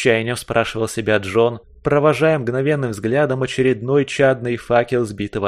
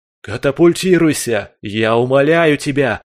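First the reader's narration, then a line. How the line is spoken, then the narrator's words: Wind shouting. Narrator (Russian): закричал ветер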